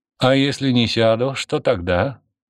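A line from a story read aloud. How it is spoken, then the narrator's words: Slightly mocking question. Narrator (Russian): спросил Константин чуть насмешливо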